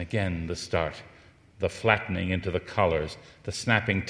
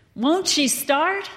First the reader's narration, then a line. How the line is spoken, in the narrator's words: shouted